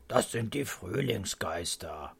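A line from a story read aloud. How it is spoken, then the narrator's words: Grandfather murmuring. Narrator (German): murmelt Opa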